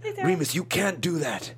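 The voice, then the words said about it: Sirius Black character voice. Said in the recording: “I got to play Sirius Black ... your impression ... it was a lot of talking like that”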